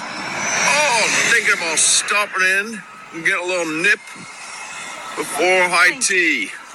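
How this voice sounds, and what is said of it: Terrible fake British accent. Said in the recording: “the single worst British accent you've heard by someone trying to do ... awful. ... A British accent? ... It's just horrendous, man. It's horrendous.”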